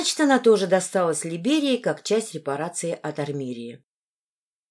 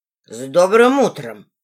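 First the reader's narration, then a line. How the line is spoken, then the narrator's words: Forced through gritted teeth. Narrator (Russian): сквозь зубы выдавил Докрей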